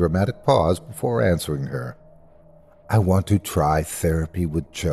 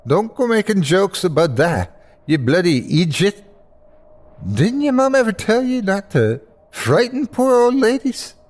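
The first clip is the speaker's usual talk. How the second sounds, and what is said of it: Strong Irish accent. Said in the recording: “her full Irish accent flaring up”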